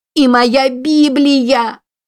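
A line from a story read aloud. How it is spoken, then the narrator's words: Shouted. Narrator (Russian): кричала она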